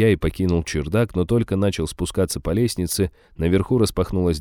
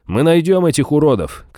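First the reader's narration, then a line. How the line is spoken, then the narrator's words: Shout after someone. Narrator (Russian): крикнул вдогонку барон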